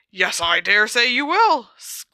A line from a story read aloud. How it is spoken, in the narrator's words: grunted Slughorn